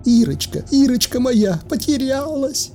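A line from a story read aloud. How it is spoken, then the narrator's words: Sobbing mother. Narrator (Russian): прорыдала мамаша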